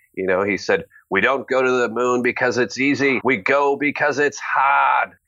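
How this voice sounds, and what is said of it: Put-on Boston accent. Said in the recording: “I'm going to do my best Bostonian accent.”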